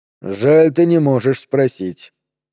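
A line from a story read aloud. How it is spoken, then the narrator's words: Dry remark. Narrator (Russian): сухо заметил Хиро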